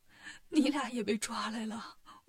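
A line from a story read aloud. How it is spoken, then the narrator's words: Crying. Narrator (Chinese): 唐僧哭了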